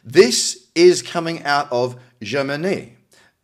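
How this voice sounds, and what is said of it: Says Germany in a French accent. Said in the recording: “I said Germany with like a French accent, that was a bit weird”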